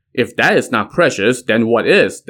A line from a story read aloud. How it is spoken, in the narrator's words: the king asked